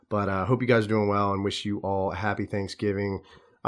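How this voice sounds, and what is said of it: Sick, rough-sounding voice. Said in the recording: “I got sick. So if I sound terrible right now, that's the reason why.”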